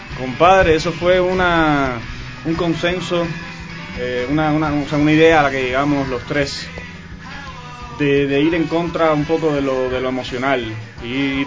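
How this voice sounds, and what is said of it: Cuban Spanish accent. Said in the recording (Spanish): “Tu acento, ¿de dónde eres, mi hermano? ... Yo soy de La Habana, brother. ... De La Habana, Cuba.”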